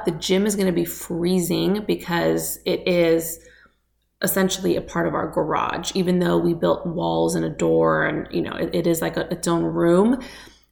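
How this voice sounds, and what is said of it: Raspy morning voice. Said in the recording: “I'm so raspy this morning.”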